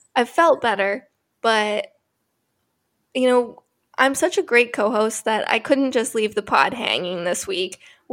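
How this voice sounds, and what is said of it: Sick, under-the-weather voice. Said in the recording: “I'm a little under the weather. You might be able to tell by my voice.”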